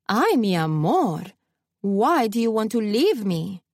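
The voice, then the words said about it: Thick Cuban accent, trilling voice. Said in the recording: “trilled in a thick Cuban accent that sounded frighteningly similar to my abuela”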